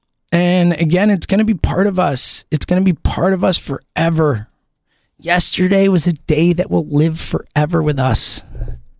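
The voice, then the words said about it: Strained, worn-out voice. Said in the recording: “I'm so sorry about my voice. ... I have, you know, talked more over the last 3 weeks ... being at these games and yelling and losing my mind”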